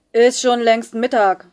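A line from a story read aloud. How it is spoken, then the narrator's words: Boy shouting back from afar. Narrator (German): brüllte ein Junge aus der dritten Reihe zurück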